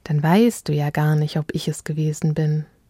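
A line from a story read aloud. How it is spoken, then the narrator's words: Cooing. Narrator (German): säuselte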